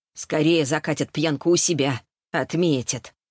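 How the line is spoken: Woman's snort. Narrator (Russian): хмыкнула женщина

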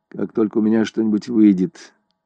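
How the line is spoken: Flat colorless voice. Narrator (Russian): ответила Селена бесцветным голосом

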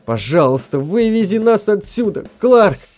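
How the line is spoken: Moaning plea. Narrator (Russian): простонала Мэри

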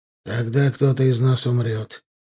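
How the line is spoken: Calm retort. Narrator (Russian): тем же спокойным тоном парировал вампир

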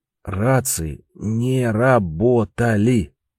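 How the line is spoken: Syllable by syllable through teeth. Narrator (Russian): по слогам процедил сквозь зубы Трифон

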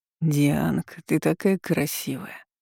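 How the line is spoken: Mumbling. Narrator (Russian): забормотал Игорь

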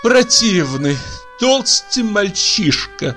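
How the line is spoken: Breathless, sobbing. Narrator (Russian): сказала она, тяжело дыша, и всхлипнула

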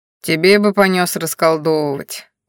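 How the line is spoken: Snorting. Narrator (Russian): хмыкнул Кощей

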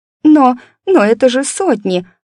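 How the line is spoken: Whimpering. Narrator (Russian): захныкала она

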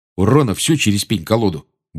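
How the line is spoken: Grumbling. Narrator (Russian): буркнул Джордж

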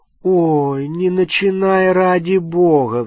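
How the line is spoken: Sigh. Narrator (Russian): вздохнула Гермиона

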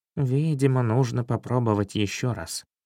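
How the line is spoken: Whispered to himself. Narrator (Russian): прошептал себе под нос

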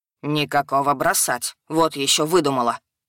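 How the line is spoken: Interrupting snort. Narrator (Russian): фыркнул, вмешиваясь в беседу гад

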